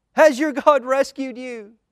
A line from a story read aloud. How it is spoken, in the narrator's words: cried